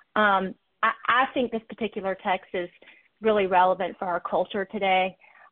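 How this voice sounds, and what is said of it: Southern American accent. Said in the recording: “it's great to have a Southern accent.”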